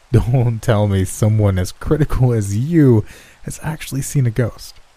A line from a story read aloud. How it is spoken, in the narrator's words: laughed